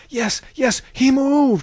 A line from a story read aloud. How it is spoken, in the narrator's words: cried another